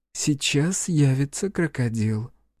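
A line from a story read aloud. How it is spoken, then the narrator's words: Whisper. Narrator (Russian): Карифа прошептала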